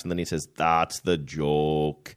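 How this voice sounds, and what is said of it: Imitation of Rainier Wolfcastle. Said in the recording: “Rainier Wolfcastle ... How's my imitation, by the way? ... Pretty good.”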